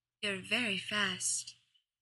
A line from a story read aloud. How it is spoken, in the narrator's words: he said softly